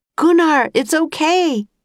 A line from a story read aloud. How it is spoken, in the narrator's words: shouted Jack